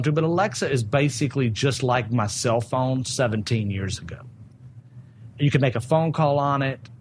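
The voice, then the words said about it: Strong Southern American accent. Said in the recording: “I have a strong Southern accent.”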